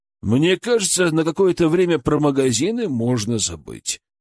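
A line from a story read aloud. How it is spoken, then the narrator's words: Grim joke. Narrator (Russian): мрачно пошутил Матвей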